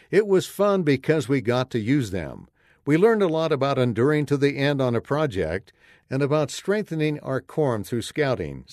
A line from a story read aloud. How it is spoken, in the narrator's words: Sam says